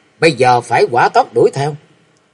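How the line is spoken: Snapping. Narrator (Vietnamese): Thịnh Tại Sư Thái gắt

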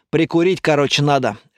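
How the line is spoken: Snort. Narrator (Russian): хмыкнул Лайер

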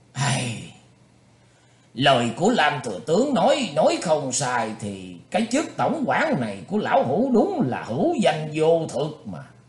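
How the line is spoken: Heavy sigh. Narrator (Vietnamese): lão thở dài sừng sượt nói

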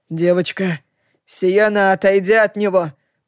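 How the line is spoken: Hoarse wheeze. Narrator (Russian): прохрипел Лохлин

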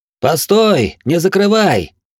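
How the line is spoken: Throat-straining shout. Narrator (Russian): Надрывая глотку, закричал Глорг

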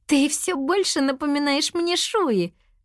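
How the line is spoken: Laughing. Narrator (Russian): рассмеялась Нини

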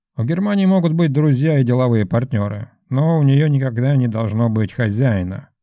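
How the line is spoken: Plain. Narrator (Russian): ответил я

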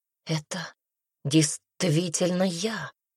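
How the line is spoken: Breathed out. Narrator (Russian): выдохнула

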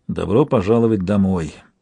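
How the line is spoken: Mumbled, without bitterness. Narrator (Russian): пробормотала Тенталья, впрочем, без горечи или насмешки

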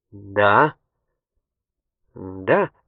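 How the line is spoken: Uncertain. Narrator (Russian): проговорил неуверенно

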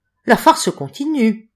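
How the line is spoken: Sneering laugh. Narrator (French): ricana M

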